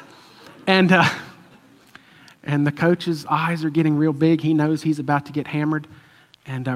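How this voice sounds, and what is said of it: Usual voice. Nothing is said of it.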